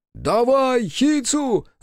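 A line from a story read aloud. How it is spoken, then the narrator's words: Shouting. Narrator (Russian): закричал Биру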